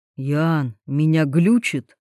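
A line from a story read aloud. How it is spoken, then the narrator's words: Stunned whisper. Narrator (Russian): шепотом спрашивает ошарашенный Андрей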